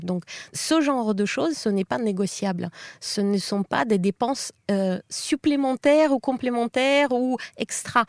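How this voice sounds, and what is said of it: Russian accent in French. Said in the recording (French): “Vous l'avez peut-être compris à son accent, ... est russe.”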